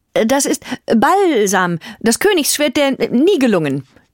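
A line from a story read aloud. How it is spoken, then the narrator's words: Child calling out. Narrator (German): rief der kleine Giselher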